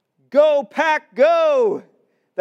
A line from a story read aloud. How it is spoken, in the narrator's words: we scream